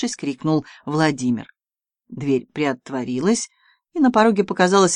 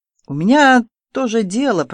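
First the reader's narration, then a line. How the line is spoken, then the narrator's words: Grumbling. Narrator (Russian): проворчал он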